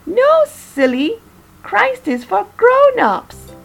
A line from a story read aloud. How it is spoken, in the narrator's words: Kim exclaimed